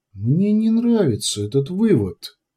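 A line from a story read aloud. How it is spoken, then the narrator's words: Quiet queen. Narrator (Russian): тихо сказала королева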